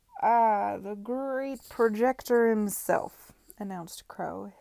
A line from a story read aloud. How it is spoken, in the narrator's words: his voice slurring